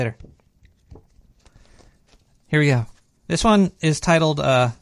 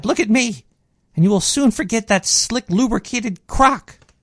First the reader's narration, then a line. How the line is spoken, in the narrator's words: cried